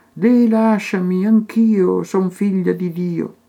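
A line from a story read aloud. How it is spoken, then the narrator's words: Innocent pleading voice. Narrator (Italian): la voce innocente che prega ed implora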